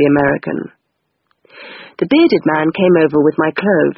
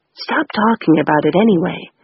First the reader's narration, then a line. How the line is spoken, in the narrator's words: the bearded man whispered